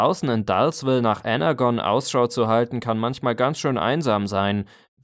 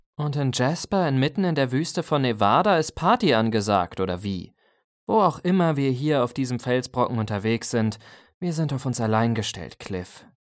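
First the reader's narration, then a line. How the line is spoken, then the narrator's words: Sighing. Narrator (German): seufzte Arcee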